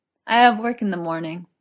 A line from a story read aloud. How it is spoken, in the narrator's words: Arthur slurred